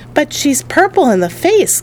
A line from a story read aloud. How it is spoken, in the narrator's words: cried Grandpa Joe